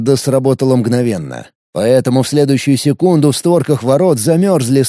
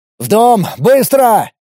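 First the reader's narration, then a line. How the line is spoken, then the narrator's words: Command. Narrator (Russian): приказал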